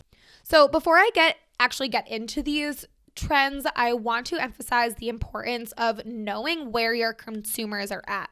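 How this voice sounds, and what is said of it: Hoarse voice cutting in and out. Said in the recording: “I am losing my voice ... my voice is going in and out”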